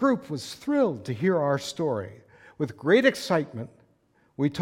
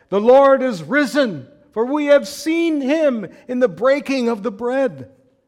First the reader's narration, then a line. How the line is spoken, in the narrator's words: cried